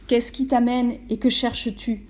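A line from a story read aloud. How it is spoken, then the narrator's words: Stern question. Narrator (French): demanda d'une voix sévère le grand Janvier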